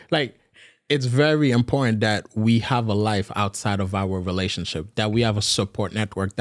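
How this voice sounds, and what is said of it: Speaks with a noticeable accent. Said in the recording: “your accent come out just so randomly sometimes”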